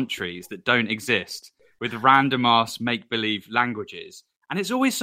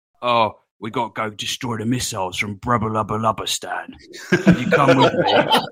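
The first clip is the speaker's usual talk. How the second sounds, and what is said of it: Cockney soldier video-game voice. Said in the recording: “some random Cockney soldier ... video game accents”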